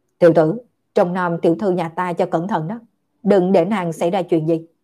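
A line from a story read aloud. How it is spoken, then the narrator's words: Cold resentful voice. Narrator (Vietnamese): Lưu Trác lạnh lùng oán giận nói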